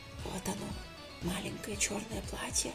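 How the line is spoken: Whispered laugh. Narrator (Russian): засмеялась шепотом Юля

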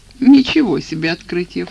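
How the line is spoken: Snorting. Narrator (Russian): фыркнул

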